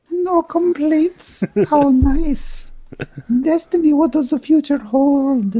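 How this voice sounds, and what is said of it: Usual voice. Nothing is said of it.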